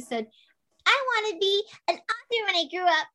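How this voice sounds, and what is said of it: Tiny, small childlike voice. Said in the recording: “in my tiniest little voice”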